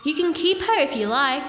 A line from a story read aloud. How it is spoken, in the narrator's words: he said